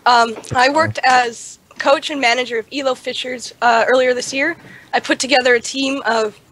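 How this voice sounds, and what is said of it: Hoarse, failing voice from illness. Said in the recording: “losing my voice, I'm sick”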